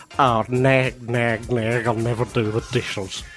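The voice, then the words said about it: Impression of Mr. Frog. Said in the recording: “I'll do an impression of him. He sounds like this.”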